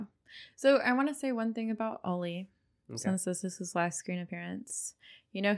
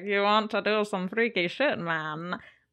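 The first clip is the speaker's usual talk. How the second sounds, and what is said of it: Bad European accent impression. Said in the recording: “That was a really bad accent. I'm so sorry to all of Europe.”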